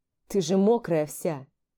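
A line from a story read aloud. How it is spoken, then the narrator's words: Quiet laugh. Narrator (Russian): Тихо рассмеялся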